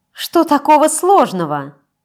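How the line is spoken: Irritated question. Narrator (Russian): Раздраженно спросила Штрауб

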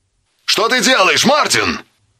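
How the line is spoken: Distant shout. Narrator (Russian): кричал полковник Яролимек, такой близкий и такой бесконечно далекий

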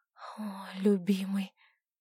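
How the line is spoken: Breathless surprised female voice. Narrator (Russian): неожиданно для себя выдохнула Александра

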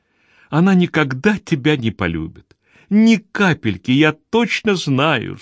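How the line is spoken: Sobbing distraught whisper. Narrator (Russian): всхлипывая, прошептала бедная Анна, совсем потерявшая самообладание

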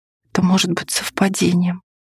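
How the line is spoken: Whispered. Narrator (Russian): прошептала Арсеника

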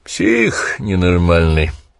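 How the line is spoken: Muttered. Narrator (Russian): пробурчал Гранье

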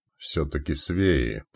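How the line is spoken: Muttered. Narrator (Russian): пробормотал Фрол

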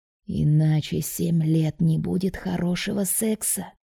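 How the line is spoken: Sepulchral voice. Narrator (Russian): за могильным голосом произносит Лоренцо

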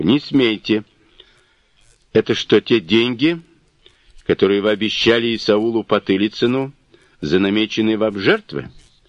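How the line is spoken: Plain. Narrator (Russian): спросил Хвостов

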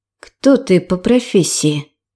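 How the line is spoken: Quiet question. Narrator (Russian): тихо спросила

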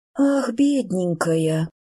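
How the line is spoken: Drawled. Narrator (Russian): протянула леди Страсконан

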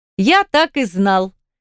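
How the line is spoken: Joyful exclamation. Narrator (Russian): радостно воскликнул молодой парень

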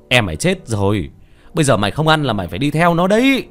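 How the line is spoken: Old man shouting. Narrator (Vietnamese): Ông hét lên

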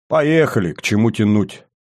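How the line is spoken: Snorting. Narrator (Russian): хмыкнул Сергей

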